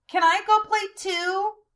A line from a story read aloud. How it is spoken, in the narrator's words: Quentin shouted